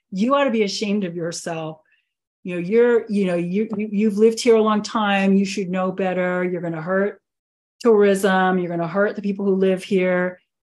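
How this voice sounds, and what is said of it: Put-on old-school local accent. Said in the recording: “just you putting on the accent, because that's how he was talking. He's old school, man.”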